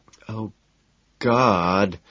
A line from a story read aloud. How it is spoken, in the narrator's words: she moans loudly